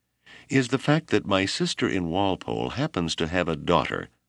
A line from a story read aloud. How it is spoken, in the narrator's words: said the tall, stern man in as kindly a manner as he could command